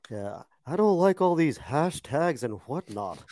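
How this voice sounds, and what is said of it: Hank Hill cartoon character impression. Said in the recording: “great Hank Hill impersonation”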